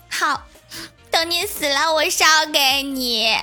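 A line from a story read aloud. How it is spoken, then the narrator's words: Choked, holding back tears. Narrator (Chinese): 郭晓霞立刻止住哭声，哽咽的说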